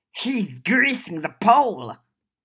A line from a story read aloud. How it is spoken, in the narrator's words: Nat exclaimed